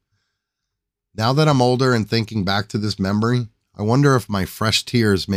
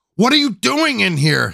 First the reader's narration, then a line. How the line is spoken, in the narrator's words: yelled